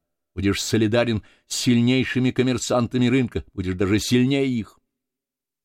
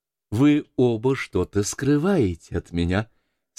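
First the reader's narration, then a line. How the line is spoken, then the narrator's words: Warm, smiling. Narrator (Russian): сказала она, ласково улыбаясь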